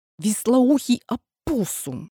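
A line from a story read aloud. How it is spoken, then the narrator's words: Angry hiss. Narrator (Russian): прошипела Нина ему вслед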